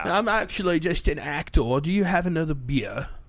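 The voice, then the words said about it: Awful put-on accent. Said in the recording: “That was an awful accent.”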